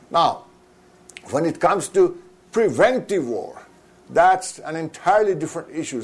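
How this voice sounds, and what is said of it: Noticeable accent. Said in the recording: “thanks to my accent, you may not immediately catch the difference between these two words”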